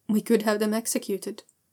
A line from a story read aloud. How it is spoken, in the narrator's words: Shun Wei says quite calmly, like executing people is the kind of thing you do, every once in a while